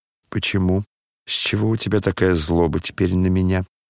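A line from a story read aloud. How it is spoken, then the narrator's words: Sad, fervent. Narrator (Russian): Грустно и с жаром подхватил князь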